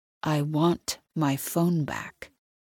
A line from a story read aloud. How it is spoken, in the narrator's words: he says in a slow, controlled voice